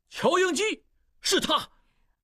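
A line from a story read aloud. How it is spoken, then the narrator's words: Ecstatic shout. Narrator (Chinese): 小拉斯普汀忘情地大叫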